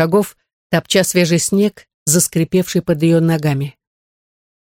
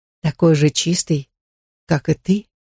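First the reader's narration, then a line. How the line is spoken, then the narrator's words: Tender, ghost. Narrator (Russian): добавил нежно призрак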